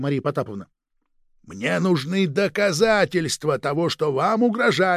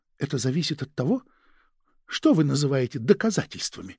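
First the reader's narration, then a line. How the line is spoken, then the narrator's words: Quiet remark. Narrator (Russian): тихо заметила Мария Потаповна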